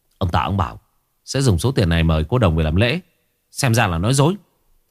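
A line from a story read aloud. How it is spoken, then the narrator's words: Annoyed. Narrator (Vietnamese): Chú Cán bực bội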